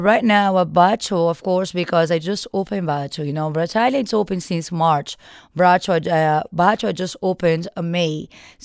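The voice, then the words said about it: Heavy foreign accent. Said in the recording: “very heavy, not more than my heavy accent”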